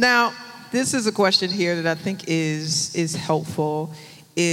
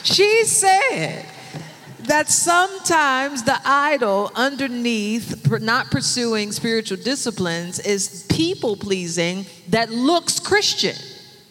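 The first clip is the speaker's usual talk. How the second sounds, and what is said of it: Pentecostal preacher voice. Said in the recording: “reiterate it for you in churchy terms ... in my Pentecostal voice.”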